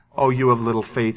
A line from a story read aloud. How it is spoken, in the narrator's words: he said